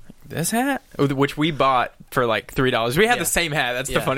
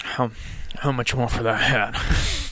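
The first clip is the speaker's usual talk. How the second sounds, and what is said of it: Imitates a drunk man's voice. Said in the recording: “he's very drunk, and I'm gonna give my best impression of him as I can”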